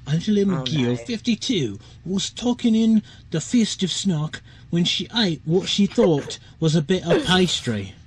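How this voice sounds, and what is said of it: Put-on English regional accent. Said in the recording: “I have to do the accent again ... I think that might be a Londoner accent ... you used to go for, is like Manchester ... maybe a bit more northern for Manchester”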